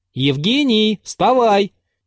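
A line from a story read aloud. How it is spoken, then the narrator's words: Loud. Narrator (Russian): прибавил он громко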